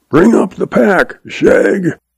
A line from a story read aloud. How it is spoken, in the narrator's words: Zeb hollers